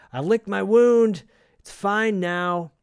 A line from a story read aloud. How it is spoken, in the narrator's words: yells up to her